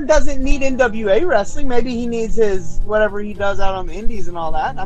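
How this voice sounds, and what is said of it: Usual voice. Nothing is said of it.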